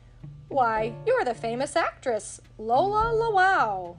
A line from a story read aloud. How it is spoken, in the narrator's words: Mickey exclaimed